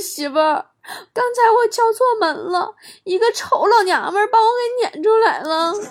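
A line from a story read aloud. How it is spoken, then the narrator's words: Aggrieved, crying. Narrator (Chinese): 他看着我呀，委屈的都哭了，说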